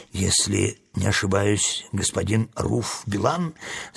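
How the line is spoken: Plain question. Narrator (Russian): спросил Урфин

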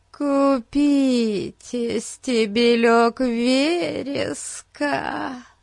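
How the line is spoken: Whiny drawn-out plea. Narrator (Russian): Плаксиво протянула цыганка

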